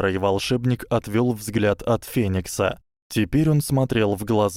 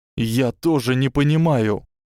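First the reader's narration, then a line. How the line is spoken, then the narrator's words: Trembling voice. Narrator (Russian): сказал Гарри дрожащим голосом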